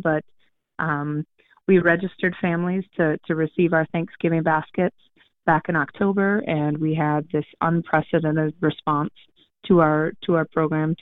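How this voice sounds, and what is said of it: Scratchy, slightly hoarse voice. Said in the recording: “my voice is a little scratchy because we've been putting in some long hours”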